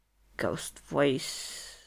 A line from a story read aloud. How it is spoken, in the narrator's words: Loki slurs